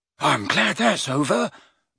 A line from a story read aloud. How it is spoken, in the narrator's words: muttered Neville